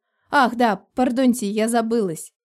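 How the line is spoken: Giggling. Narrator (Russian): хихикнула я

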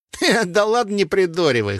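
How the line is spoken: Snorting fighter. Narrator (Russian): хмыкнул боевик

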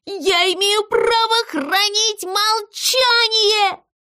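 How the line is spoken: Shrill squeak. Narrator (Russian): Зыза пронзительно запищал

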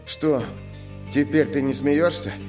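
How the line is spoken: Tired young man. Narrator (Russian): устало сказал парень

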